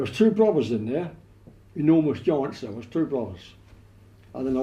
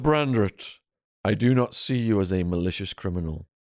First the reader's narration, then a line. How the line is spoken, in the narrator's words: sighed the judge